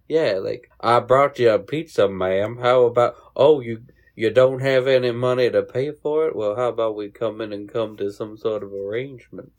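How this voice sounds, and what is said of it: Put-on Texan Southern drawl. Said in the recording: “What accent is that? ... I was going for a pedophile accent. ... everyone in Texas attempt. ... It kind of sounded like you were going for plantation owner”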